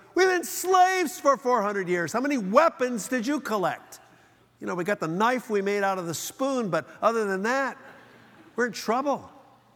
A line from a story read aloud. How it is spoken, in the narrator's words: somebody yells